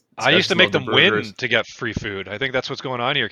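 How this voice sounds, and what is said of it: Usual voice. Nothing is said of it.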